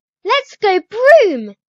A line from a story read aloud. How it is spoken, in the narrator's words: She squeals